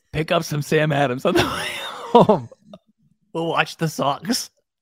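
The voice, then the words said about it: Bad put-on accent. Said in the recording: “Woik? I'm going to Woik? ... So stupid. Such a bad accent.”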